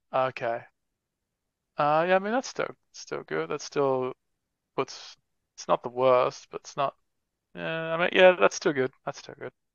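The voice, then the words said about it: Australian accent. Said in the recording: “I'm assuming your accent is Australian, right? ... Yep.”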